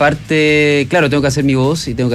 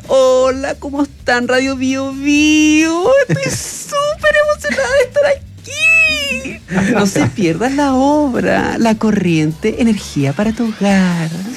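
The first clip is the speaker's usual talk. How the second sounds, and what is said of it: Puppet character voice. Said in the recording (Spanish): “tengo que hacer la voz de la Brisa ... Brisa, que es la marioneta”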